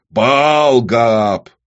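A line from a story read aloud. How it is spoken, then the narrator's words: Barking. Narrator (Russian): рявкнул первородный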